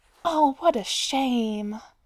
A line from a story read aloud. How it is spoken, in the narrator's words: the first woman sighed, looking thoroughly downcast